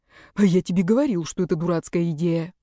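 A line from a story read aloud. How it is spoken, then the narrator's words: Whisper in ear. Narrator (Russian): прошептал он Руслану, наклонившись над его ухом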